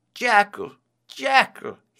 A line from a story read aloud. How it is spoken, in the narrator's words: he cried